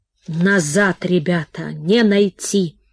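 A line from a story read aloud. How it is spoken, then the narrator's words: Hoarse coughing, tearful vagrant. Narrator (Russian): Сквозь хриплый кашель слезливо сказал бродяга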